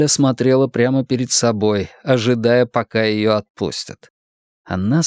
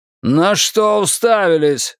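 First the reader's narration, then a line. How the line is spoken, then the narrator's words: Roaring. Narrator (Russian): взревел он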